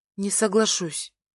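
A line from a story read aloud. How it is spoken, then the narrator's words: Quiet. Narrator (Russian): отвечаю тихо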